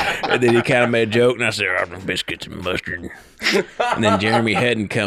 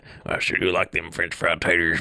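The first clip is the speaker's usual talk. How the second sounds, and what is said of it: Sling Blade-style Southern drawl. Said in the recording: “he used to call me Sling Blade because of my accent”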